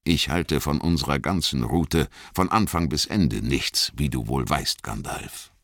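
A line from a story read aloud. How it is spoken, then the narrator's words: Plain. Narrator (German): antwortete Aragorn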